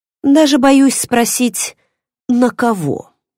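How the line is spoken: Resigned sigh. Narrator (Russian): обреченно вздохнула мама

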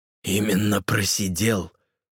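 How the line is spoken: Snorted, priest. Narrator (Russian): фыркнул отец Брайан

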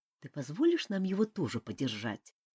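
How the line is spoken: Quiet question. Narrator (Russian): Тихо поинтересовался один из тех русалов

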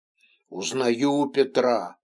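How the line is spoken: Grumbled mutter. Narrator (Russian): пробурчал Кричко

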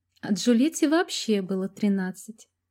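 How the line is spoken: Giggle. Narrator (Russian): хихикнула Маша

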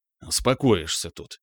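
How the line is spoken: Grumbling old general. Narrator (Russian): проворчал седой генерал

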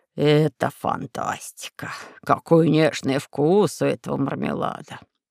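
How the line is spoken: Drawl. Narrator (Russian): протянул кондитер

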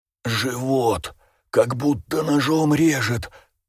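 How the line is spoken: Hoarse wheeze in pain. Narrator (Russian): прохрипел режиссер, продолжая трястись и корчиться от боли

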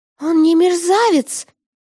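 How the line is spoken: Screaming. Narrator (Russian): завопила я

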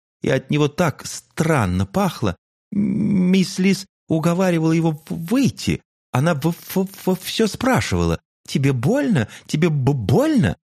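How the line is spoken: Heavy stammering. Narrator (Russian): заикалась Бизи больше обычного

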